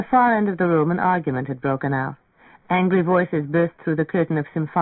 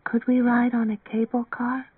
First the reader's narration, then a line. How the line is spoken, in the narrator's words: she asked in a wan, discouraged whisper